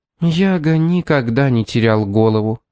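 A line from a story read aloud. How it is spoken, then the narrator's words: Sad. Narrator (Russian): печально произнесла мисс Фитцджеймс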